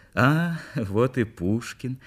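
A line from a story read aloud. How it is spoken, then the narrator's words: Soft drawn-out voice. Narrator (Russian): мягко протянула она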